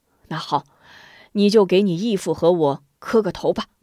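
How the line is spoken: Old woman laughing. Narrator (Chinese): 康婆婆笑道

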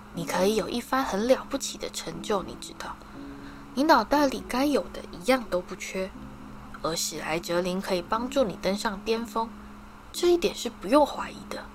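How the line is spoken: Small, soft whisper. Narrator (Chinese): 一个细小的声音就在他耳边轻轻响起

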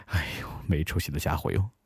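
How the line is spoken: Gentle sigh. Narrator (Chinese): 忠实的约翰轻叹口气

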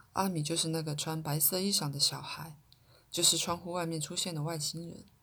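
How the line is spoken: Soft child's voice. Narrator (Chinese): 这位太空儿童让他的声音轻轻地传到文卡耳内，告诉他

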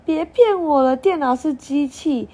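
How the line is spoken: Laughing. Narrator (Chinese): 康康笑了起来

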